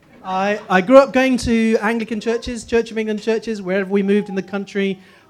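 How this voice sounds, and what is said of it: Posh southern English accent. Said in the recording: “So I just sound posh now... My family in the north think I sound like a posh southerner. My southern friends think I sound like a brash northerner.”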